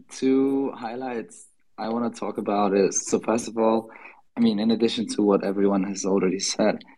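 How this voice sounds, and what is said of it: Hoarse, lost voice. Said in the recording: “as you can hear, I also lost my voice, and it's still not back.”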